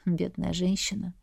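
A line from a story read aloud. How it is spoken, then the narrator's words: Breathed out. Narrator (Russian): Выдохнул князь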